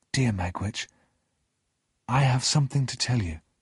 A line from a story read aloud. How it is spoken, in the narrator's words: I said quietly